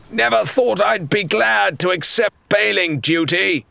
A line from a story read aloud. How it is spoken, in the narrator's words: he barked over the cacophony